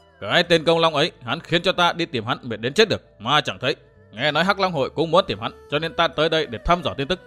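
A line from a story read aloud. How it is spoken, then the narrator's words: Stern voice. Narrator (Vietnamese): Vô Tư Minh nghiêm giọng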